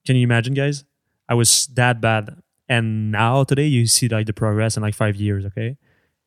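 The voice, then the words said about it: French Canadian accent. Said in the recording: “For sure I have an accent and I will never lose it ... I'm French Canadian”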